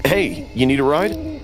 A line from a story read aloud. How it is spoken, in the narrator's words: called out